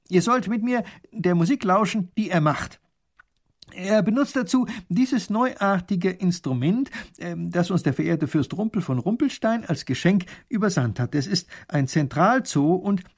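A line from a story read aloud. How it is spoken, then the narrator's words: Loud. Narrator (German): Und laut sagt der Großherzog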